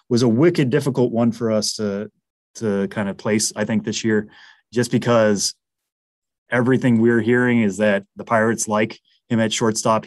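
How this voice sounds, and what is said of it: Massachusetts accent. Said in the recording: “my Massachusetts accent is going to come out here”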